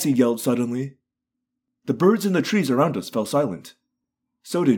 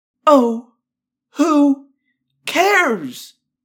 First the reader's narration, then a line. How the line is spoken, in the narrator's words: Cassie cried